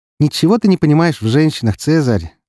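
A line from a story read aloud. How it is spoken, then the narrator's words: Condescending alien reply. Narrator (Russian): ответила фурсианка покровительственным тоном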